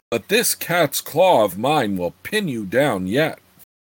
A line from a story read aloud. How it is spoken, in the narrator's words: Abney snarled